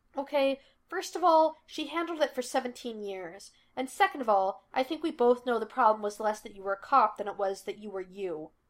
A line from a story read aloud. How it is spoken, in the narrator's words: he snapped